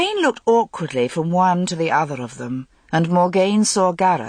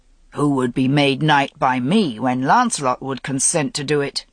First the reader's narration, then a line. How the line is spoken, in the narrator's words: Gawain said gruffly